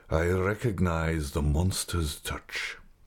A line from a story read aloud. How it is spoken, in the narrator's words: he said with a deep sigh